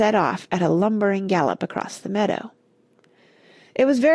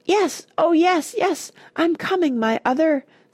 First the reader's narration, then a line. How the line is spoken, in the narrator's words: screamed the elephant